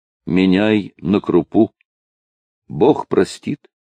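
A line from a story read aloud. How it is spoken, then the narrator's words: Quiet weak speech. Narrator (Russian): тихо сказала бескровными губами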